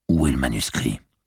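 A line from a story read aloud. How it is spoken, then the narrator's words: Cop, authoritative voice. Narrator (French): fit le flic d'une voix autoritaire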